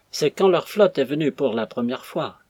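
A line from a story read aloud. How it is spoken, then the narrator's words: Hollow deep voice. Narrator (French): répondit le patriote d'une voix caverneuse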